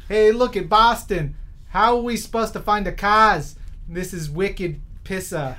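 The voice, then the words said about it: Exaggerated Boston accent, dropped Rs. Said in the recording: “spot-on Boston accent ... he probably says something about cars and takes out the R.”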